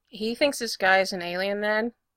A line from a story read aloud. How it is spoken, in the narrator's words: asked blandly